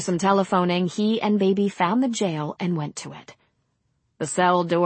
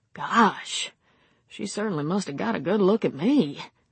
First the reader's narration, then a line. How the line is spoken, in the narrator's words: muttering to himself